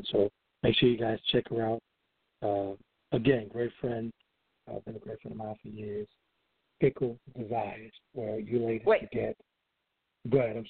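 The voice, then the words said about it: Louisiana accent. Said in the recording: “Your Louisiana accent is losing it for me ... your Louisiana accent was getting in the way there. I couldn't understand what you were saying.”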